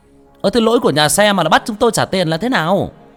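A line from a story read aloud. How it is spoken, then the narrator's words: Crowd shouting. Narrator (Vietnamese): Một số người la hét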